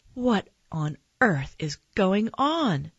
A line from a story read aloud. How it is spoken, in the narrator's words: my mom cried